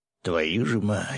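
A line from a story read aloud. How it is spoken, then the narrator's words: Through gritted teeth, man. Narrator (Russian): сквозь зубы процедил мужчина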